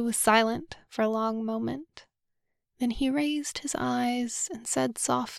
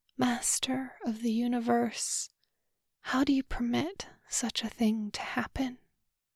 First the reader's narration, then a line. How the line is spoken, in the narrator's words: The question hung in the air like a sigh of pain